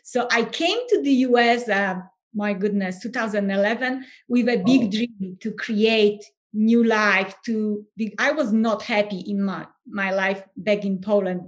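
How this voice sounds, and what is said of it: Polish accent in English. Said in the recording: “everyone can hear my accent. And so I'm originally from Poland”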